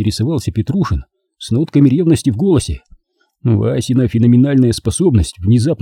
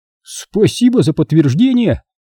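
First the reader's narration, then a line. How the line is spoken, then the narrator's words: Cheerful snort. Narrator (Russian): Вася весело хмыкнул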